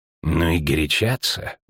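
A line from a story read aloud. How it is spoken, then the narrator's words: Grumbling spy. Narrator (Russian): буркнул риданский шпион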